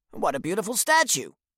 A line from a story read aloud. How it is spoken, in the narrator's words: exclaim